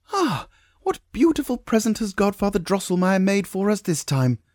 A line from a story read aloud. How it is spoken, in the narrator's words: exclaimed Maria